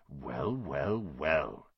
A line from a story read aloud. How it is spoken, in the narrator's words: whispered